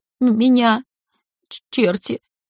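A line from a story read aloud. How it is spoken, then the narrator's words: Muffled voice, then sobbing. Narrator (Russian): раздался приглушенный голос Вероники, дальше послышались всхлипывания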